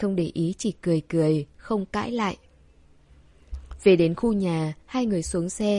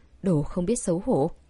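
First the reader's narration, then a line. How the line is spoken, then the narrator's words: Muttering. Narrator (Vietnamese): cô lầm bầm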